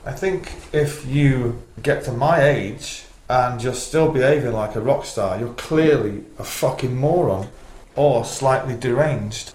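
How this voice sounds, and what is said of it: Manchester English accent. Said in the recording (German): “der Mancunian-Akzent, Manchester-Akzent... Man versteht vielleicht nicht immer jedes Wort”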